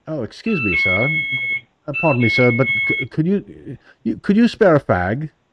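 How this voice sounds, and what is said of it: Put-on British accent. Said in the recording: “the British Bobby, with his really, really cool accent”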